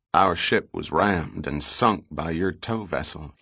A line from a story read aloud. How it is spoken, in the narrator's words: he said quietly